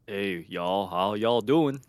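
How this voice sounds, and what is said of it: Deliberately bad put-on southern accent. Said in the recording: “you try to do an accent, or you try to do a southern accent ... I'm doing my shitty rendition”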